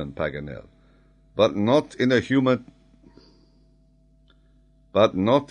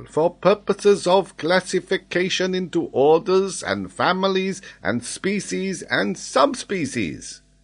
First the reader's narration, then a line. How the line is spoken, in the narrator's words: exclaimed Paganel